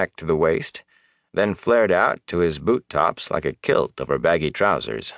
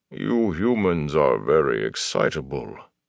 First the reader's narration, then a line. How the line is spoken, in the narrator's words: Loyal said in his bass rumble